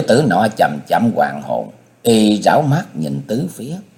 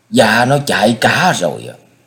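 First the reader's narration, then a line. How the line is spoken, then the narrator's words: Servant's angry reply. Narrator (Vietnamese): Một tên đầy tớ giọng tức giận đáp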